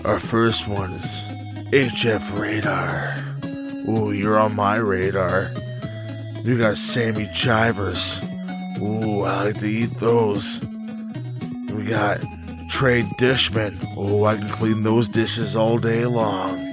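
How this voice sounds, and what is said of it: Put-on sexy, sultry voice. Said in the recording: “Should I do it in a sexy voice ... Do it. Sexy.”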